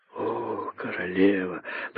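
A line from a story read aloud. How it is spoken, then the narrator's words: Embarrassed whisper. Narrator (Russian): прошептал находчивый и, ужасно смутившись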